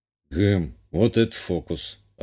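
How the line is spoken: Puzzled muttering to oneself. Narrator (Russian): озадаченно буркнул себе под нос

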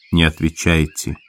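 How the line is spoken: Said quietly. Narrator (Russian): сказал он тихо

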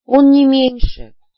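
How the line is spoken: Sigh. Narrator (Russian): вздохнула я

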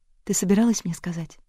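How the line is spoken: Soft near-whisper question. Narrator (Russian): спросила она мягко, почти шепотом

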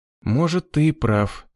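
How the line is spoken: Young man's sigh. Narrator (Russian): вздохнул парень

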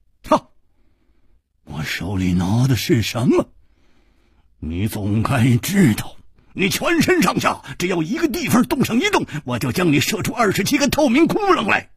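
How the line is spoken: Stern, harsh. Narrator (Chinese): 弩侠厉声说

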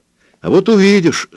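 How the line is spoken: Joyful. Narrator (Russian): сказала она радостно

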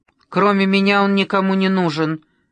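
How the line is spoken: Angry. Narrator (Russian): зло проговорила Ира

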